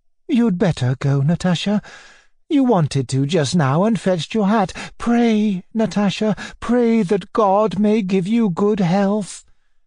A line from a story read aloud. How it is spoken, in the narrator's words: Anna Andreevna persuaded her daughter, looking timidly at her as though she were afraid of her